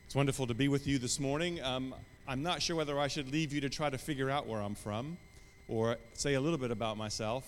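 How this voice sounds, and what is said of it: Mixed American and British accent. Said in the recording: “my accent. ... It's not English. It's not British. ... it's just confused, isn't it, really? I'm from the United States originally, but I moved to the United Kingdom 31 years ago”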